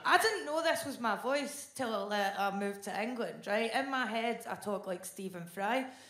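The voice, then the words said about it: Scottish accent. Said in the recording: “an intelligent woman trapped in a Scottish accent”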